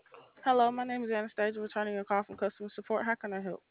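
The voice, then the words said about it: Talking very fast. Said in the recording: “You're talking really fast.”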